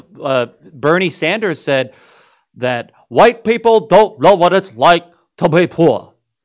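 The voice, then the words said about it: Imitates another person's voice. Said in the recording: “That was a pretty good impression”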